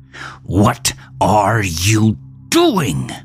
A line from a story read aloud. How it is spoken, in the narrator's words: Melvin snapped